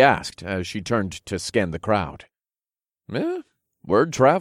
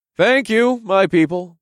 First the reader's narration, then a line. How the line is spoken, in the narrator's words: I called out